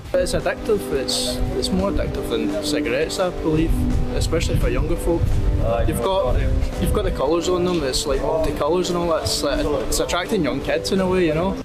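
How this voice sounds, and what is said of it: Very strong Scottish accent. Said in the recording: “That's a very strong Scottish accent.”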